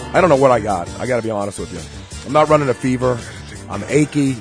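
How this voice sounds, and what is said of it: Hoarse, very deep lost voice. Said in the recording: “I sounded remarkably like Barry White... Well, Barry is back... I've lost my voice.”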